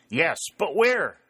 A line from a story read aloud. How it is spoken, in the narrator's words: cried Dick